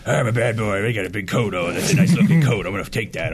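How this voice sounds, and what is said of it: Gruff Marv impression. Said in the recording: “really good Marvin impression”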